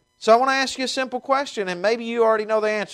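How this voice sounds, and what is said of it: Slight Southern twang. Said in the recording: “as you can tell with my accent, it's much more fancy than it used to be, but I have a bit of a twang.”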